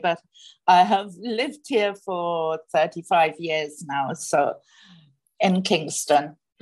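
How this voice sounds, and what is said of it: Slight British accent. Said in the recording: “You might be able to tell from a bit of my accent that I was born in the UK”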